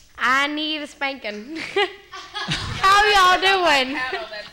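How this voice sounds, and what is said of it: Put-on Southern accent. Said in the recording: “I can do the Southern accent.”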